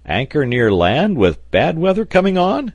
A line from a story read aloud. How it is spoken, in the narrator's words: exclaimed the sailor